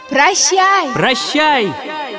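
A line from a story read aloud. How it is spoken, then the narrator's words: Two voices shouting. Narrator (Russian): Закричали принц и принцесса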